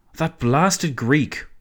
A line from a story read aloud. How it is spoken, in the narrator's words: Orlando exclaimed